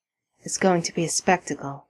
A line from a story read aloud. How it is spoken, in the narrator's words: murmurs Sam